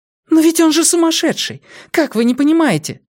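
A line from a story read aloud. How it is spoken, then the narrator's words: Exclaiming. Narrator (Russian): воскликнула Вера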